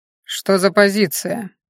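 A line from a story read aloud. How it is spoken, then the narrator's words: Cold question. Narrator (Russian): холодно спросил Хорен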